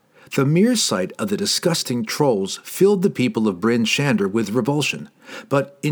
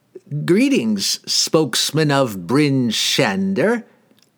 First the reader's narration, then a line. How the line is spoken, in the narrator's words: he cackled